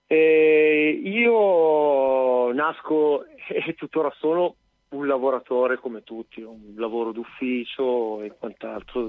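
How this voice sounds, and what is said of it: Milanese Italian accent. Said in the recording (Italian): “A Milano, giusto, come si sente dall'accento. ... Esatto, si sente tanto.”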